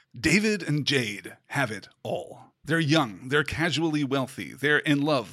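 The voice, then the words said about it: Dramatic movie trailer narrator voice. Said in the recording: “Do I have to do trailer voice?”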